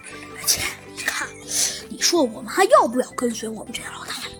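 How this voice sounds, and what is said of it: Quiet, hushed character voice. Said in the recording (Chinese): “其中一个人小声地说道”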